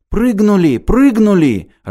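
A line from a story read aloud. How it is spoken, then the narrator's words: Joyful exclamation. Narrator (Russian): радостно воскликнул Петенька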